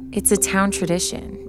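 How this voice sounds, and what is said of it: Hushed, quiet voice. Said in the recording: “she said in a hushed voice.”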